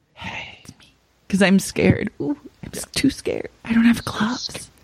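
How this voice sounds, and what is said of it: Whispering in a scared voice. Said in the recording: “And you have to whisper.”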